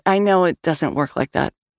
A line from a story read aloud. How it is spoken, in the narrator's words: she replied too quickly